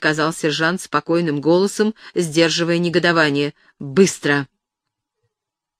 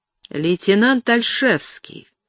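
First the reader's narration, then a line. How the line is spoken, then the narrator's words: Quiet sarcastic commander. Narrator (Russian): тихо, язвительно проговорил командир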